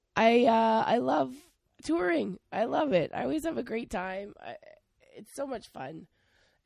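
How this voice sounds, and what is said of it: Hoarse, lost voice. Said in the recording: “You can tell by my voice. I kind of lost it, kind of got a cold”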